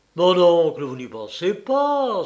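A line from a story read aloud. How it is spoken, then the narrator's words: Exclaiming. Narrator (French): s'écria-t-il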